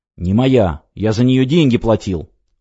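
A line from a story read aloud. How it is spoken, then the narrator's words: Snapping. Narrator (Russian): огрызнулся он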